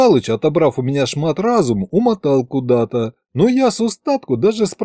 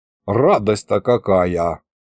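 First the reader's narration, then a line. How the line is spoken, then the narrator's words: Grumble. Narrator (Russian): проворчал я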